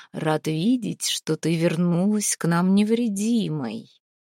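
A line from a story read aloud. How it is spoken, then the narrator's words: Calm, soft, echoing. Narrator (Russian): Он звучал спокойно, даже мягко, но эхо отдалось от столбов палаты, от стен раскатилось по черному небосводу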